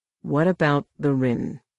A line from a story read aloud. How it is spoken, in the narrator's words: he asked more calmly